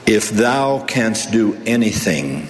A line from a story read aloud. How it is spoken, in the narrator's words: said